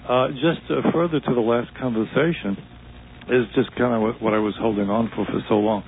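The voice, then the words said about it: Slightly hoarse voice. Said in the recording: “I have a little cold. I may be a little hoarse.”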